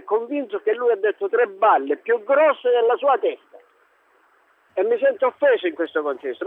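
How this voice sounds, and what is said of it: Sicilian accent. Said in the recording (Italian): “c'ha un accento siciliano, lei è a Reggio Calabria, ma non so se è l'accento reggino.”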